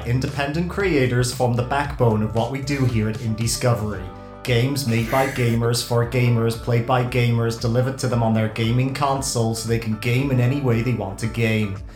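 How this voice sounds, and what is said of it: Bad put-on American accent. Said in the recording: “a bad American accent”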